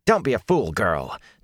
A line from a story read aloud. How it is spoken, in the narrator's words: Nynaeve snapped